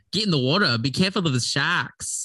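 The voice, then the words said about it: Put-on Australian accent. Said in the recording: “the Australian kinesthetic trigger ... That's where my Australian accent ends.”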